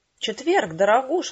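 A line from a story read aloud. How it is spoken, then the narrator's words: Exclaiming, beads rattling. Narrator (Russian): воскликнула Корделия, грохоча бусами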